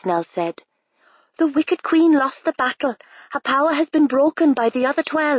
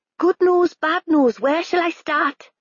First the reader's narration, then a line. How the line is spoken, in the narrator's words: cried